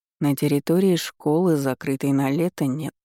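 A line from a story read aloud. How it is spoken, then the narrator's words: Calm objection, king. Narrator (Russian): спокойно возразил король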